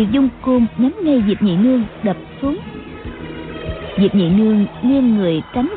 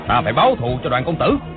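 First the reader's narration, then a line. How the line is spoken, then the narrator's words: Grieving furious shout. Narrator (Vietnamese): Hộ vệ tên Phó Tư Quy nghe nói Đoàn Dự đã chết, vừa đau lòng vừa tức tối quát lớn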